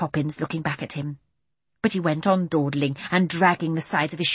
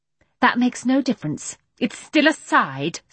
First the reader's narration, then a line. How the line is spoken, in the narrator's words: scoffed Mary Poppins